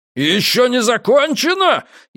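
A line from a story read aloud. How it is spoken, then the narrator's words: Hysterical wail. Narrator (Russian): истерически взвыл Барнаски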